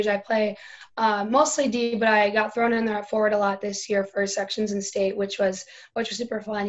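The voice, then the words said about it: Raspy, strained voice. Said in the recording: “I'm kind of raspy because I had a couple games this weekend”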